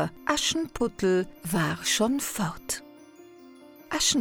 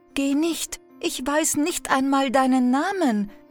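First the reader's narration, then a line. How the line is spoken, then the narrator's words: Calling out. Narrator (German): rief der Prinz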